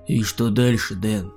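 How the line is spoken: Muffled question. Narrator (Russian): глухо спросил меня Михаил

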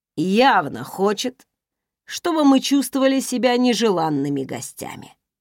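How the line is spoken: Grumble. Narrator (Russian): проворчал Райф

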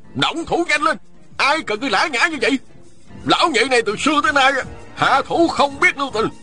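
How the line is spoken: Angry barking. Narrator (Vietnamese): Ôn Phương Nghĩa quát lên

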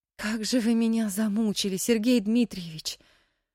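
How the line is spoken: Heavy weary sigh. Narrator (Russian): тяжело вздохнула Мэри

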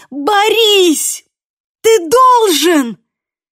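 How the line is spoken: Panicked shout. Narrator (Russian): крикнула в панике

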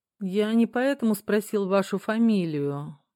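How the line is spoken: Gloomy. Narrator (Russian): мрачно пояснил Дронго

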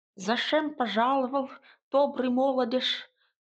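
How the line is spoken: Toothless mumble. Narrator (Russian): прошамкала Василиса

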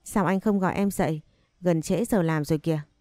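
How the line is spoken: Reproachful tone. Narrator (Vietnamese): Thanh Nhã ... trả lời với giọng trách cứ

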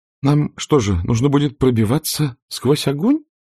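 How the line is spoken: Trembling voice. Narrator (Russian): дрожащим голосом спросила Скарлетт

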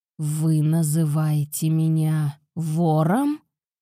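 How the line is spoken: Menacing growl, lord. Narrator (Russian): прорычал владыка таким тоном, что за столом воцарилась мертвая тишина

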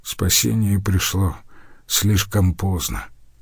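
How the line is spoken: Quiet. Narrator (Russian): тихо сказал мастер

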